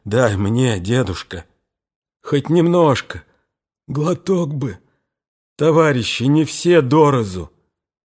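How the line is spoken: Hoarse broken whisper. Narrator (Russian): зазвучал хриплый прерывистый шепот

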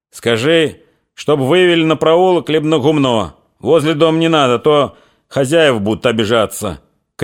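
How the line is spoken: Shouting after. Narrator (Russian): крикнул вслед им Фомин

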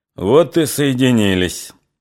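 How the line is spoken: Mocking. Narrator (Russian): насмешливо сказал он

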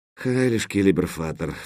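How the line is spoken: Sigh. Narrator (Russian): вздохнул

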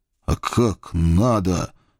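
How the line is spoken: Groaning through clenched teeth. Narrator (Russian): Сцепив зубы, простонал я

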